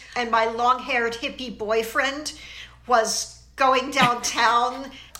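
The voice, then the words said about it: Philadelphia accent. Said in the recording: “I might have said that with my Philly accent, too.”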